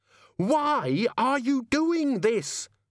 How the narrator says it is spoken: Susan screamed

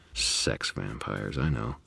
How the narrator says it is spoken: muttered

